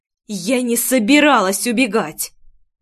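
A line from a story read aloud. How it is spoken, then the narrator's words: Angry through gritted teeth. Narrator (Russian): Зло процедила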